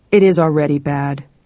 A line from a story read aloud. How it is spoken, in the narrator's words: grumbled Thorsid Magnusson, director of public safety